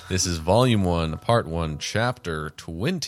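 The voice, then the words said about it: Announcer voice. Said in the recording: “You have your announcer voice on right now.”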